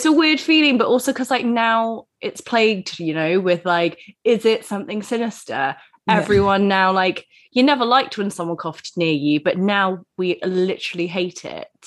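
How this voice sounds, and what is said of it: Voice affected by a cold. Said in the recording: “I've got a bit of a cold.”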